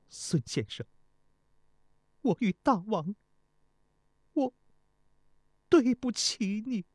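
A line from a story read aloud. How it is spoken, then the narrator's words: Choked tearful sobbing. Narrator (Chinese): 钟离春极力忍耐着，但终于没忍住，泪流满面，伤心地哽咽地说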